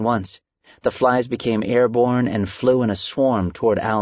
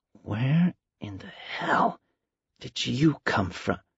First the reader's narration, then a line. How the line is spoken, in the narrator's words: He whispered slowly